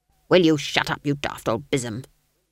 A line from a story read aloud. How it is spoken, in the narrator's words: snapped Granny